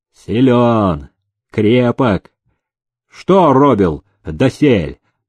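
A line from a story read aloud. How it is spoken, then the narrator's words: Plain. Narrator (Russian): спросил он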